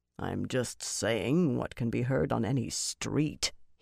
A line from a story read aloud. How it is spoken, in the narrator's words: he muttered